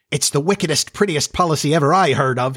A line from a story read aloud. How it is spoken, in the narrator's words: he cried, and in their exultation